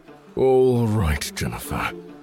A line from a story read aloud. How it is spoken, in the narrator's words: he mumbled under his breath